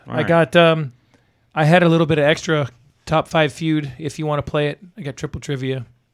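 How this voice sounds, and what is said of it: Hoarse, strained voice. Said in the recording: “As you can hear, I'm hoarse. I can barely talk.”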